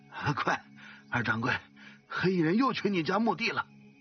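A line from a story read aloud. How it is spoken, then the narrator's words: Breathless. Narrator (Chinese): 杨官气喘吁吁地告诉他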